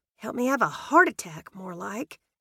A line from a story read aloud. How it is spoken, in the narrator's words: mumbled